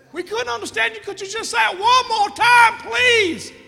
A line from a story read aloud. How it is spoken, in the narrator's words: The boy yells back again